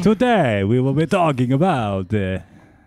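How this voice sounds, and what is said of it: Dracula-style vampire accent. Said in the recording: “What is that accent? ... that's just Dracula ... there are people that actually speak that way”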